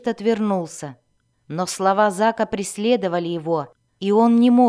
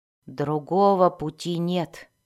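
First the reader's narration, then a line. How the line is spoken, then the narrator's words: Quiet continuation. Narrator (Russian): тихо продолжал оружейник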